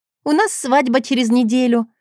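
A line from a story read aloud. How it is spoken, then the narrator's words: Joyful. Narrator (Russian): радостно поделилась она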